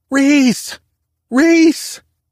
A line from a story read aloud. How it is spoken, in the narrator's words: Haley's screams